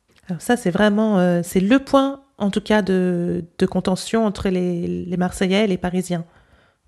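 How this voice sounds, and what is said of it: French spoken with Parisian accent. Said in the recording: “Now with my accent. ... With my Parisian accent”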